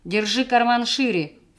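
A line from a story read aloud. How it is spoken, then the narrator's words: Snorting. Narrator (Russian): фыркнул Сабир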